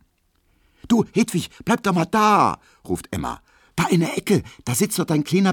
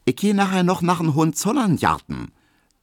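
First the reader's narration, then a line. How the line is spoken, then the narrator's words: Plain. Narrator (German): sagt Hedwig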